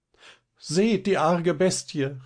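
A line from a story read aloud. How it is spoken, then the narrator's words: Frightened cry. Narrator (German): rief Liese erschrocken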